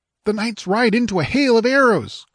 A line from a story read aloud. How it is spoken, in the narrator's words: cried the squire